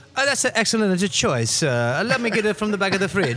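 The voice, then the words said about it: Put-on Italian accent. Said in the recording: “I think you need to do your Italian one... You gotta do good Italian accent?... I sound like I'm doing Chef Boyardee”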